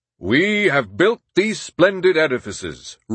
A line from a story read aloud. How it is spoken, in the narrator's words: roared Grover Cleveland